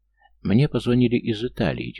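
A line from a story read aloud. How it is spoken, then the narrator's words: Heavy sigh. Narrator (Russian): тяжело вздохнула Элина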